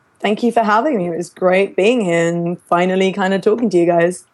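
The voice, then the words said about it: English accent. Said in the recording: “increasing the English accent quotient by a good 100% on this episode”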